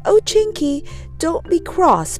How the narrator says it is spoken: begged Molly

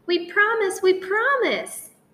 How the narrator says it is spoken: cried the cubs

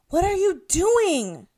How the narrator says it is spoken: Natalie shouted at me

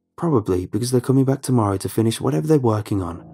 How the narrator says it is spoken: Rob said quickly

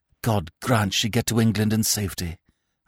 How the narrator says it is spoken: I whispered

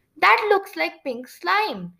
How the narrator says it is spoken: she exclaimed

